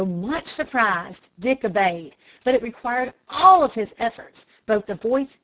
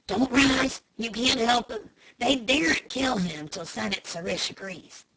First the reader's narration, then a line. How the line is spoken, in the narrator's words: Joe Blunt whispered quickly